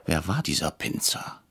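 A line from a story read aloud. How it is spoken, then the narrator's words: Whispered. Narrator (German): flüsterte ich Herrn Bretscher zu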